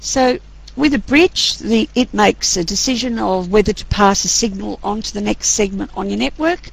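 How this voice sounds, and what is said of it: Hoarse, strained voice. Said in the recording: “Losing my voice here.”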